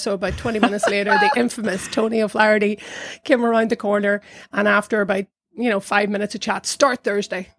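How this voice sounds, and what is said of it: Irish accent. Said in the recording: “she heard my accent. She said, oh, you're Irish.”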